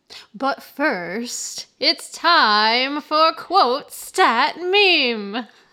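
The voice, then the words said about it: Game show host voice. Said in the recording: “That was your best game show voice.”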